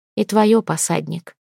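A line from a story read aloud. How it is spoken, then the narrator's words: Quiet reply. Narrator (Russian): отозвалась она негромко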